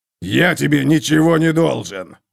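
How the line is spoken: Harsh bark. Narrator (Russian): рявкнул Готрек

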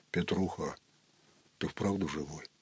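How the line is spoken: Wary bass question. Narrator (Russian): настороженным басом спросил

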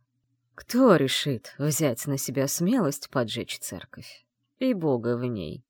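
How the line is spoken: Chuckling. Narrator (Russian): хохотнув, закончил он

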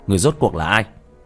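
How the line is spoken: Sudden stern shout. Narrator (Vietnamese): đột nhiên nghiêm nghị quát lên

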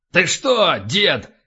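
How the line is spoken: Barked. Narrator (Russian): рявкнул полубой

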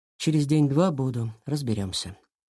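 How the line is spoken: Plain. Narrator (Russian): сказал он

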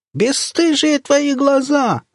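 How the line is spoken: Old woman wailing loudly. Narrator (Russian): завопила бабка

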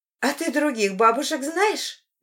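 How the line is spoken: Cheerful. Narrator (Russian): весело продолжает

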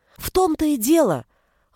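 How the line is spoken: Exclaiming. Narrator (Russian): воскликнула Кристина

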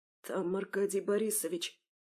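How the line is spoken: Whispered. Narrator (Russian): прошептал Антон

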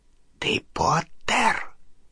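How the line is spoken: Whisper. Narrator (Russian): прошептала она

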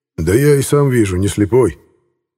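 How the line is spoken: Surprisingly calm older man. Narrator (Russian): На удивление спокойно ответил немолодой пилот

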